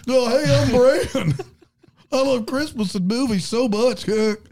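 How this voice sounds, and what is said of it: Imitates another person's voice. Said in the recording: “his impression of you”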